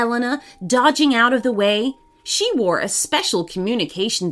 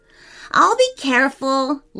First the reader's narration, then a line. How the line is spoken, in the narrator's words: laughed Samuel